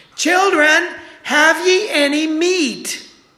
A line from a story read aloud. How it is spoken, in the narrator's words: he's yelling out to them